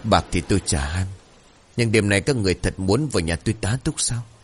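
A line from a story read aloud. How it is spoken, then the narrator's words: Bitter smirk. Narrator (Vietnamese): Người đàn ông khẽ nhếch môi cười chua chát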